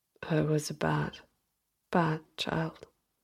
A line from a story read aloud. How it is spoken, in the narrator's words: Peter mumbled, feeling a tear in the corner of his eye